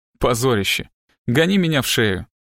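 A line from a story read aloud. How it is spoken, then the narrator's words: Reluctant laugh. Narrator (Russian): Она нехотя рассмеялась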